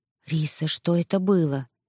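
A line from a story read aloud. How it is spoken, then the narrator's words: Whisper. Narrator (Russian): шепнула Ама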